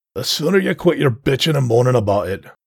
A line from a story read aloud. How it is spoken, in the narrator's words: growled Altrus